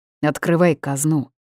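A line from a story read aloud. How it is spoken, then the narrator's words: Growling. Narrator (Russian): рыкнул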